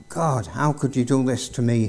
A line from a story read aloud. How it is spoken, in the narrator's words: he cried